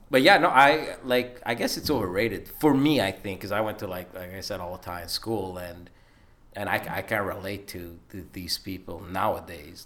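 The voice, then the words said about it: Montreal Italian-community accent. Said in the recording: “besides my accent, that I can't escape. It's amazing that I learned in St. Leonard”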